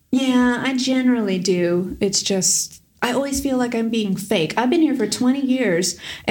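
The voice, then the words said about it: American accent. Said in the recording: “you can hear my American accent”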